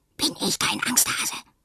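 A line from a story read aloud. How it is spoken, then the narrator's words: Whisper. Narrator (German): flüstert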